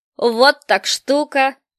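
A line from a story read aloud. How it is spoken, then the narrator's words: Merry laughter. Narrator (Russian): весело расхохотался Мартын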